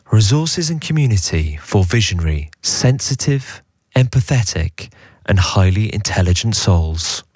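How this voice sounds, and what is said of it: Mock voiceover announcer voice. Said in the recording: “I'll do my voiceover voice”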